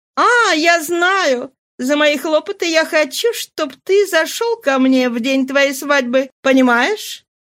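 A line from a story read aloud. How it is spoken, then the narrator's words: Laughing exclamation. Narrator (Russian): Она, смеясь, воскликнула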